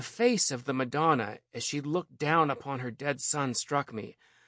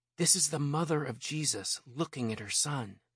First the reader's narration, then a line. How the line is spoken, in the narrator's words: my mother, who, while grasping my hand tightly to hers, whispered